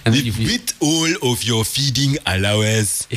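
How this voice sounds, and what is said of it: Put-on Nigerian accent. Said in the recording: “Now say feeding allowance in a Nigerian accent.”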